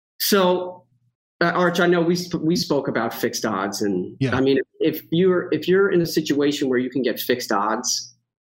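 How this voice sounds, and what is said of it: New York accent. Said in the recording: “the New York accent is here”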